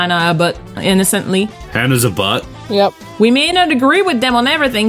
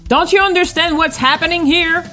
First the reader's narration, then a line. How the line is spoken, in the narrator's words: I yelled angrily in an angry voice